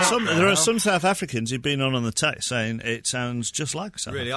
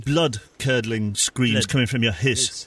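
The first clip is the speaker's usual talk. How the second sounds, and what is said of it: Good put-on South African accent. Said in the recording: “House is actually quite difficult to say in South African ... That was a very good South African accent”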